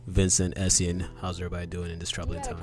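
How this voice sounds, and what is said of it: Deep bassy late-night radio DJ voice. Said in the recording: “Come through with all that bass. ... That's my 12 midnight radio DJ voice.”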